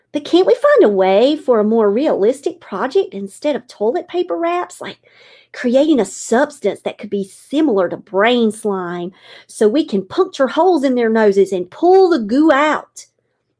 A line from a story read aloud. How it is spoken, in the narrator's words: Miss Eichner laughed